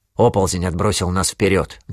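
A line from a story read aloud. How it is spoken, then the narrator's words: Plain. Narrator (Russian): говорит капитан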